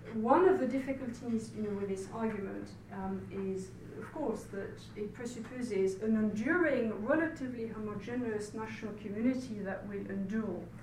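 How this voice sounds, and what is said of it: French accent in English. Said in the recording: “I'm very aware of my French accent”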